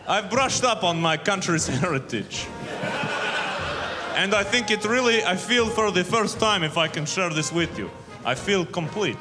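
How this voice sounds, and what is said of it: Put-on Russian accent. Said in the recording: “it's a real Russian accent. For the first time.”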